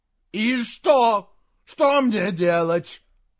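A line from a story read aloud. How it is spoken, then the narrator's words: Shouted. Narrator (Russian): закричал Саймон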